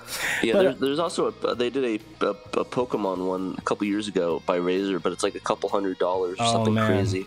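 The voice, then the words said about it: Voice sounds terrible, unwell. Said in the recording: “You sound terrible.”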